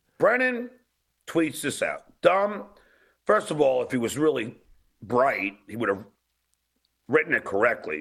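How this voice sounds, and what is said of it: Long Island accent. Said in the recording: “He's got this weird Long Island accent that's enraging to a lot of people.”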